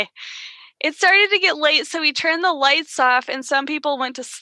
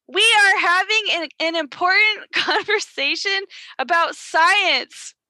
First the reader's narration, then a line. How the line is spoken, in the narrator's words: Karen yelled back rudely